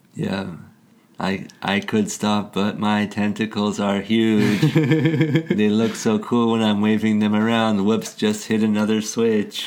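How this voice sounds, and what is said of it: Generic robot voice. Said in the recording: “I'm just kind of doing a generic robot voice.”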